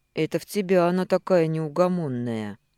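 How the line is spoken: Sleepy mumble. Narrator (Russian): сонно пробурчал лорд Крайчестер

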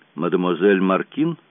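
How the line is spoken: Dry, curt question. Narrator (Russian): Он спросил сухим тоном

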